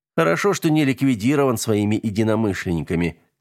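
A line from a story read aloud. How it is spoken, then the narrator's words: Plain. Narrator (Russian): сказал Влад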